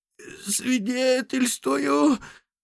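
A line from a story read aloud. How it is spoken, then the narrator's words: Strained forced words. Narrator (Russian): выдавил из себя мужик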